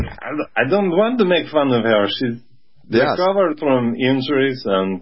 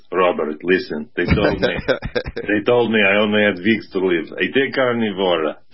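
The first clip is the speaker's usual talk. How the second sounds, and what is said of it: Deep, thick Ukrainian accent. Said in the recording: “a thick Ukrainian accent ... is her voice deep and luscious?”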